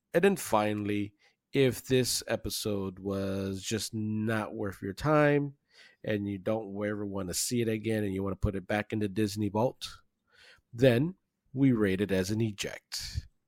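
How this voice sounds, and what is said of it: Announcer-style radio voice. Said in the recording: “Love the radio voice. Love the radio voice.”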